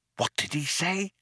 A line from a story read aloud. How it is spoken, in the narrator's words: whispered Ford in astonishment